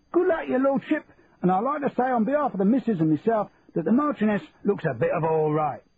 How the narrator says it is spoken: someone from the crowd shouted

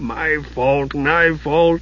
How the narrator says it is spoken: the dwarf was a huddled heap, his head bowed, moaning

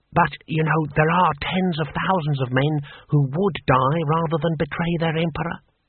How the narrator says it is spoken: whispered Six Beneficent Winds

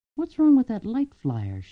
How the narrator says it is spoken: she murmured, half to herself

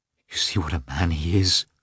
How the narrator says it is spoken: she said in a trembling voice

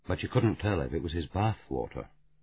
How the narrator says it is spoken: Dalglish said gently

